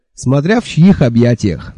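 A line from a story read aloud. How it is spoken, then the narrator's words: Giggling. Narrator (Russian): хихикнул я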